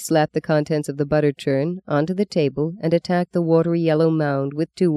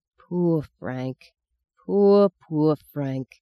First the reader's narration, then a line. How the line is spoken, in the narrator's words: she sighed, not to Meggie but to herself